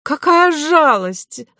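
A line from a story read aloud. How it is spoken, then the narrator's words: Effeminate wail. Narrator (Russian): завопил женственный специалист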